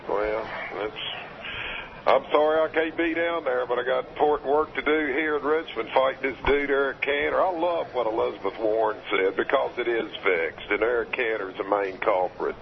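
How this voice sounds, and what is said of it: Southern American drawl. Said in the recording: “your southern accent ... your honey drawl”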